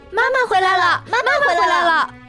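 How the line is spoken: Excited shouting while hopping. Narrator (Chinese): 红眼睛和短尾巴 蹦蹦跳跳的 边跳边喊

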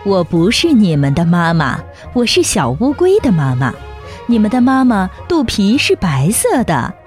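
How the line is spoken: Laughing turtle mother. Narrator (Chinese): 大乌龟笑着说

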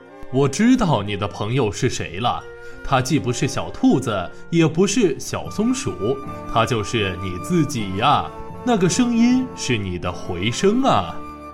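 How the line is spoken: Warm chuckling. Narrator (Chinese): 象爸爸呵呵笑了

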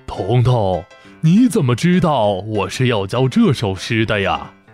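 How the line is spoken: Surprised, smiling. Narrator (Chinese): 老先生惊讶地看着彤彤，笑着点头说道

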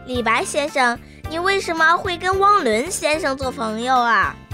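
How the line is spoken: Sudden loud question. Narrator (Chinese): 彤彤突然开口大声地问道

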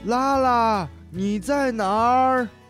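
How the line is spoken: Distant shout. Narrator (Chinese): 远处传来了喊声

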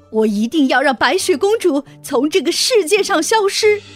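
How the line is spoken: Furious shouting. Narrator (Chinese): 王后听完这个回答，气愤极了，她大叫

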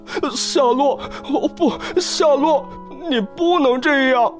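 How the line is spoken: Anguished crying. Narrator (Chinese): 威伯立刻沉浸到巨大的痛苦和忧伤之中，他痛苦地搅动着身子，哭叫起来

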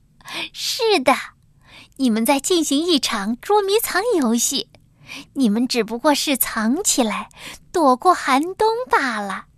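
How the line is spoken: Laughing. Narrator (Chinese): 冬鸟笑着说

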